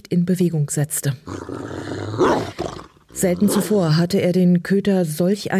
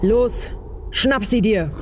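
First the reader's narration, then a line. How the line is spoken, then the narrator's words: Thundering. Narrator (German): donnerte Uliana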